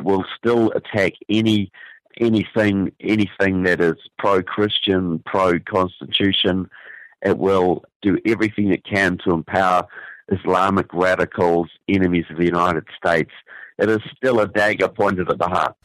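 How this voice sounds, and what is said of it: New Zealand accent. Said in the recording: “hailing from New Zealand. You're picking up perhaps what he calls a real Southern accent from down under.”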